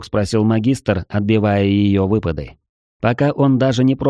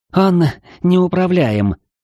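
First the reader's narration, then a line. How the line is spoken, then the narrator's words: Furious breathy exhale. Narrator (Russian): яростно выдохнула Лу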